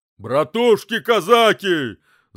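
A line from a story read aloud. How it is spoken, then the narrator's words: Booming shout, military officer. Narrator (Russian): зычно выкрикнул войсковой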